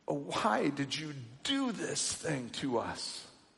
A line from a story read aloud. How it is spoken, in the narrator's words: They groaned